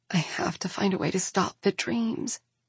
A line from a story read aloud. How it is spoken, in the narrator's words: she whispers